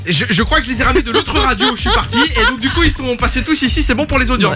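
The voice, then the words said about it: Liège Belgian accent. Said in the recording (French): “l'accent de ... il y a une petite rechute de temps en temps ... le monsieur vient de Liège”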